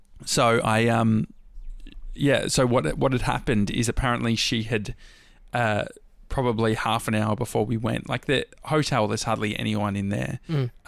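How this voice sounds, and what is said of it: Hoarse, failing voice. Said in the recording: “I'm losing my voice again”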